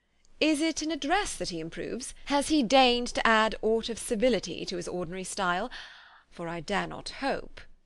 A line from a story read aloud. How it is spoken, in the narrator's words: But checking himself, he added in a gayer tone